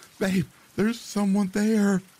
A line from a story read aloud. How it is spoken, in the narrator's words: she screams